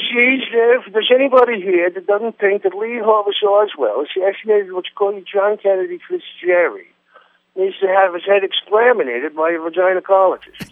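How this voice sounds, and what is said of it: Archie Bunker impression. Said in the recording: “your Archie Bunker impersonation”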